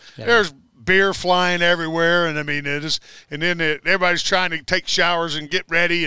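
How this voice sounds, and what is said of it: Usual voice. Nothing is said of it.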